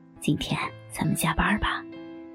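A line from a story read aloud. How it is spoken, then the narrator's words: Quietly. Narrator (Chinese): 小黄对我小声地说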